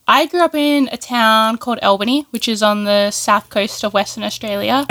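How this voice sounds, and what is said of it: Australian accent. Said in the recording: “the accent is there, but definitely Australian.”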